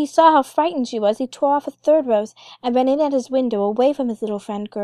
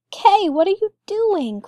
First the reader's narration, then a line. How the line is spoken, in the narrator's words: cried the little girl